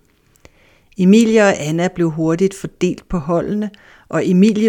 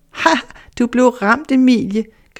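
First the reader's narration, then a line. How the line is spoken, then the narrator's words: Laughing. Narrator (Danish): grinede Anna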